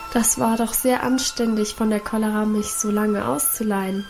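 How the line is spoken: Hoarse joking. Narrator (German): scherzte sie mit heiserer Stimme

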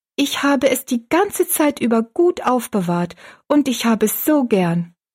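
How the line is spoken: Calling out. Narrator (German): rief

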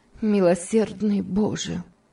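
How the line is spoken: Exclamation after heavy sigh. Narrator (Russian): тяжело вздохнув, воскликнула

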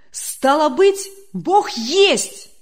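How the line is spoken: Joyful exclamation. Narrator (Russian): радостно воскликнул Демьян Лукич

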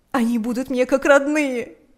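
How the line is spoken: Shouting through sobs. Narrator (Russian): кричала она сквозь рыдания

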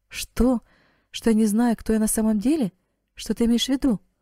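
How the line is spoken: Astonished young woman's exclamation. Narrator (Russian): воскликнула девушка, еще более пораженная, чем раньше

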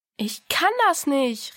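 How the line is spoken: Called out. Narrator (German): rief Diana

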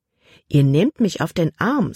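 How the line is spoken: Plain. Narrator (German): sagte

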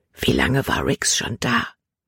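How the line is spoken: Whisper. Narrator (German): flüsterte sie

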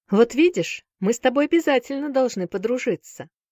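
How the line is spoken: Cheerful boy. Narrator (Russian): весело сказал хромой мальчик

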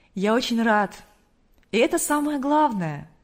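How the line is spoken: Joyful, smiling. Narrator (Russian): радостно улыбнулся хозяин дома

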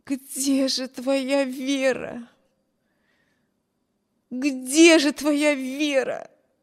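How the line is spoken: Repeated moaning. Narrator (Russian): Стонала бедная Эми, снова и снова повторяя про себя

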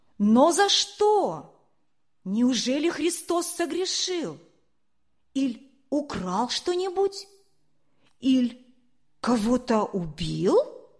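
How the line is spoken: Shout from crowd. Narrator (Russian): Из стоящей толпы кто-то крикнул

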